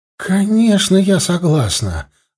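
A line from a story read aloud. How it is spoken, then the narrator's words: Joyful, smiling female voice. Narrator (Russian): радостно улыбнулась Джоан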